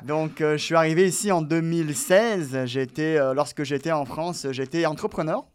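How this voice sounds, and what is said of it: French accent from France. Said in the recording (French): “je vois que tu as un accent français ... comme tu peux l'entendre”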